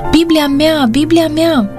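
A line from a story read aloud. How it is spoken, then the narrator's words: Exclaimed. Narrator (Romanian): a exclamat ea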